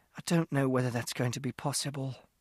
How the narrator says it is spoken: Mother put her hands over her face and breathed out hard, and she said

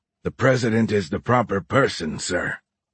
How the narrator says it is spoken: Horn growled

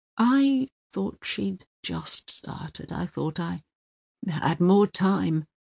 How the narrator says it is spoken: he mumbled

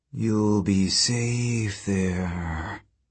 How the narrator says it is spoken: she murmured

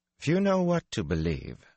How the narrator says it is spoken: Elorian said stiffly

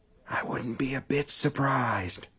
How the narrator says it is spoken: Under his breath, Brian whispered

